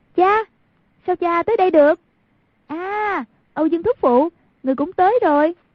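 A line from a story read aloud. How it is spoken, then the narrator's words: Urgent raised call. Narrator (Vietnamese): Thấy cục diện trước mắt đã vô cùng nguy cấp, lập tức cao giọng kêu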